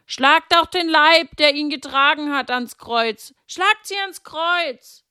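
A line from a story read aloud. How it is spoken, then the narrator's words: Crowd shouting. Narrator (German): manche schrien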